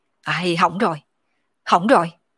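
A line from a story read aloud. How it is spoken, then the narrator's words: Grave muttering. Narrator (Vietnamese): trang chủ đại nhân sắc mặt trầm trọng, lẩm bẩm nói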